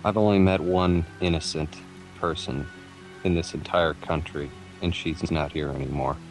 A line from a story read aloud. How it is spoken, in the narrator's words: he'll pass by Carolyn and whisper